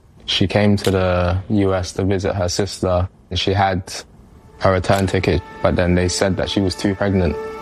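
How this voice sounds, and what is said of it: London English accent. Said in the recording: “Grew up in London. You hear that accent? That's not a Brooklyn accent.”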